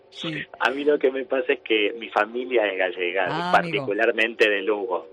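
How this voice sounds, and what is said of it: Native accent with Galician touches. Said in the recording (Spanish): “todavía conservas tu acento, ¿no, natal? Aunque ya tienes unos dejes de aquí, de Galicia”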